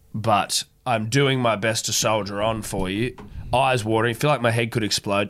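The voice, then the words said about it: Sick, sniffly congested voice. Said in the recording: “do apologise for the consistent sniffling. Obviously, you can tell I sound like an absolute deathbed.”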